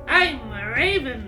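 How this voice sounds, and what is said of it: Eerie raven character voice. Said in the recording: “in an eerie voice, in a raveny eerie voice”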